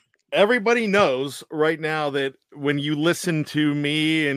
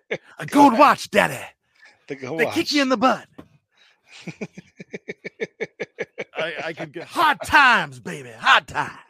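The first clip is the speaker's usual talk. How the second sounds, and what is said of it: Dusty Rhodes impression. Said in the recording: “my Dusty Rhodes impression”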